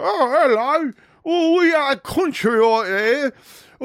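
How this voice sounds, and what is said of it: Poor put-on British accent. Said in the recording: “I can't do a British accent.”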